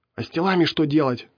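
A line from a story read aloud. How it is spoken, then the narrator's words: Indignant whisper. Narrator (Russian): возмущенно зашептал он вслед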